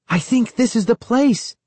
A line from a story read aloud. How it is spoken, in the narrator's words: I exclaimed happily